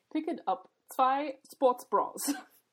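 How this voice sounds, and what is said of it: English read in German accent. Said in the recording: “it pronounces it in a German accent ... each syllable is pronounced the way you would pronounce this syllable in German”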